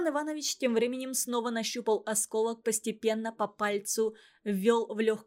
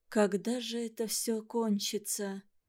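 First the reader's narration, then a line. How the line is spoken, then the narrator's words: Woman's whisper. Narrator (Russian): прошептала женщина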